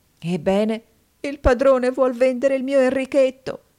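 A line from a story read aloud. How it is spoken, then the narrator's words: Convulsive sobbing. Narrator (Italian): la povera donna singhiozzava, convulsa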